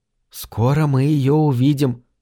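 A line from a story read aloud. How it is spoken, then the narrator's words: Whispering. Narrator (Russian): прошептала она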